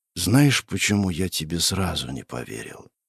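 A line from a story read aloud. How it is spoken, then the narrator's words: Quiet. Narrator (Russian): тихо произнес император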